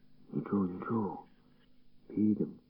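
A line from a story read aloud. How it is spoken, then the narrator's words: Quiet. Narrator (Ukrainian): тихо сказав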